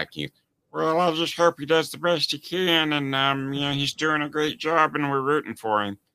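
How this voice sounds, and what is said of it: Imitates another person's voice. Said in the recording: “my Patrick Mahomes impression... Is it okay to make fun of somebody's voice?”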